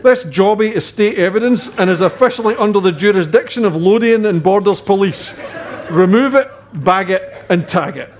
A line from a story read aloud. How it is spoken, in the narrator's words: barked